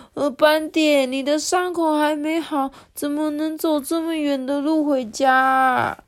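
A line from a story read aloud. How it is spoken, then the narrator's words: Crying. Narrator (Chinese): 雅图哭着说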